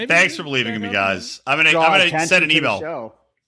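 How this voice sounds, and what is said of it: Usual voice. Nothing is said of it.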